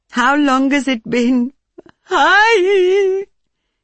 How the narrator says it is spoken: She suddenly cried out

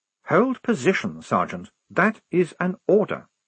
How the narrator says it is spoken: said Blouse calmly

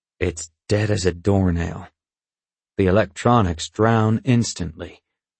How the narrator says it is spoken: he explains gloomily

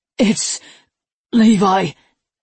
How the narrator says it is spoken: he breathed

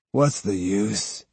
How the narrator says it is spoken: he groaned

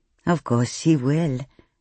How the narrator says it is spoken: Geeta murmured

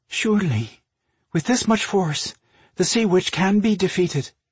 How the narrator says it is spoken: added, nervously

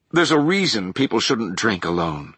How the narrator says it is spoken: Gabrielle said

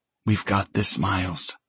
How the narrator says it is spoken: she whispers against my ear

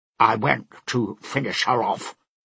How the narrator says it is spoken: Prime snapped

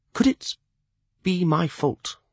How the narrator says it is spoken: he asked softly, senselessly

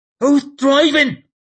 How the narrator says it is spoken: She spat it out and mumbled at Temple

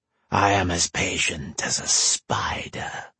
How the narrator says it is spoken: the monster purred

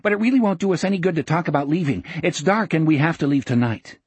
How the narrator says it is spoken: he said hastily

